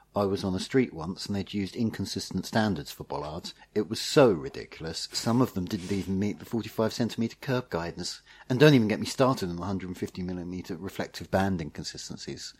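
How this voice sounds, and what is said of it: Impression of James Ball. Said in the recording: “this is my James Ball impression ... quite a good impression of James”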